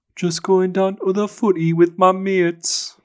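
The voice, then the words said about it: Put-on Geordie accent. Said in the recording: “Give me a Geordie accent ... So Geordie”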